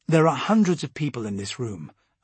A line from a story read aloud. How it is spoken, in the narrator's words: I said calmly